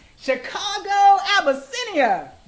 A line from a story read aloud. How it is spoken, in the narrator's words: Redwood laughed